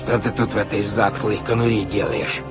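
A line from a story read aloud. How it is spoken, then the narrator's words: Creaky voice. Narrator (Russian): произнес он скрипучим голосом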